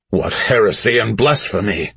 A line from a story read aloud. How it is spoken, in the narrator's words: Rook spat